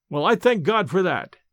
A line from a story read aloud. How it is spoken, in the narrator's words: cried I